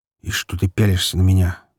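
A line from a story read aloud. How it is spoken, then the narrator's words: Grumbling. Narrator (Russian): буркнул Егорка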